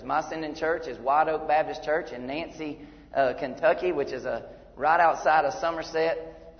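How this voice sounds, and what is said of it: Georgia Southern US accent. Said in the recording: “This accent came from Georgia.”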